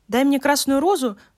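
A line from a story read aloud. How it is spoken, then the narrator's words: Exclaiming. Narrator (Russian): воскликнул он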